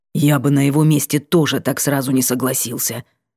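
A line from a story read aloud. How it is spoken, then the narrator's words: Grumbling. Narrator (Russian): проворчал Сиятельный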